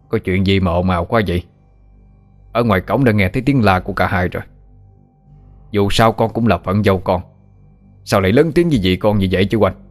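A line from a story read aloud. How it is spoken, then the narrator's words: Stern. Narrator (Vietnamese): Giọng lão Diệp nghiêm nghị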